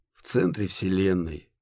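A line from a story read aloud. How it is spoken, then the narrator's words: Unhappy creature's sigh. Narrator (Russian): вздохнула несчастная паучиная кенгуру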